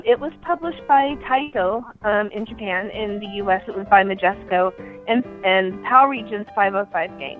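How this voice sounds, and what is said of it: Slightly rough, unwell-sounding voice. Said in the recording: “my voice is still a little icky today”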